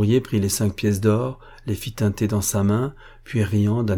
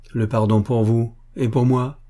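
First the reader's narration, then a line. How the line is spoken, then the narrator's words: Rider exclaiming. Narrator (French): s'écria le cavalier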